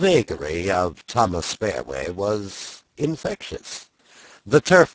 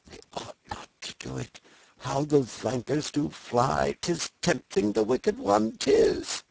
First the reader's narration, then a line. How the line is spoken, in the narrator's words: uneasily rocking himself as he murmured